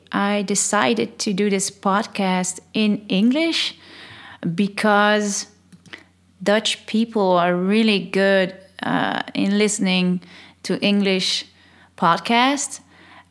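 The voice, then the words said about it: Dutch accent in English. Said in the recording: “I'm Dutch, I'm from Holland... I hope they'll forgive my accent”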